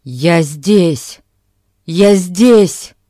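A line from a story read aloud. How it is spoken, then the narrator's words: Shouted. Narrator (Russian): закричал Альберт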